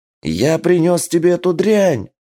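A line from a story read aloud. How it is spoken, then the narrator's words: Shouting in someone's face. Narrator (Russian): кричал прямо в лицо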